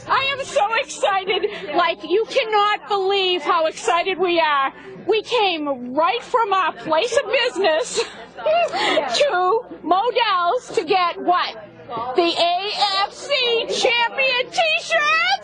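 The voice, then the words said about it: Boston accent. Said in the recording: “Here's a good example of a Boston accent.”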